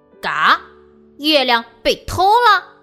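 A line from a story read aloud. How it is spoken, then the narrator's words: Shouting with full force. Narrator (Chinese): 他用尽全力，大声喊道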